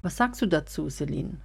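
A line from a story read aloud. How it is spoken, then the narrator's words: Plain. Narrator (German): fragte Jessica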